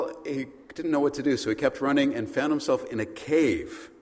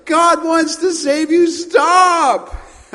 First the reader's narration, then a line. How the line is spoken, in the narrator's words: running ... the Christian who's yelling at him